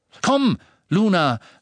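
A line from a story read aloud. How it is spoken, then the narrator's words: Call. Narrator (German): rief Dean, als er vorbeilief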